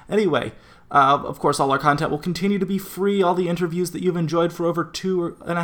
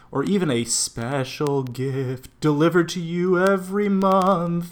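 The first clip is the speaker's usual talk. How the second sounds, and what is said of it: Spooky put-on voice. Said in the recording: “It's actually not that spooky. I don't know why I was doing that voice.”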